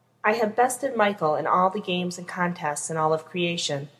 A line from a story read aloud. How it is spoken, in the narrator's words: Castiel says